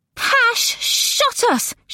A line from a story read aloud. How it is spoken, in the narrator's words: she wailed